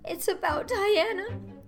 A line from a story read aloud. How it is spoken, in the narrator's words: sobbed Anne luxuriously